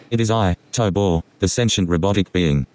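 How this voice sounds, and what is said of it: Condescending robot character voice. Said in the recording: “He sounds like an asshole... He sounds condescending... he's very condescending... Talking to me like I'm a bitch”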